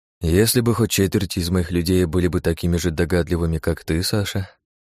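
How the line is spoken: Long sigh. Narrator (Russian): Багратион протяжно вздохнул

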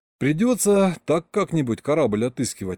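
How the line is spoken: Sigh. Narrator (Russian): вздохнул я

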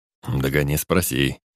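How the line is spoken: Reluctant, through clenched teeth. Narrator (Russian): нехотя сквозь зубы бросил Энгельс

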